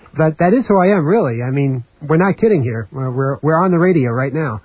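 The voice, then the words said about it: New York accent. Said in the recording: “you can probably tell from my accent that I'm from New York”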